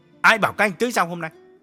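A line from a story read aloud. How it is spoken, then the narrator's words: Harsh question. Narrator (Vietnamese): Nhất gay gắt hỏi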